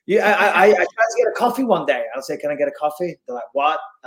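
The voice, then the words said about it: Speaks with a noticeable accent. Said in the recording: “I know I've got an accent”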